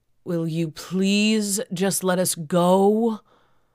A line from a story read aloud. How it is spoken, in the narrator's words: I moaned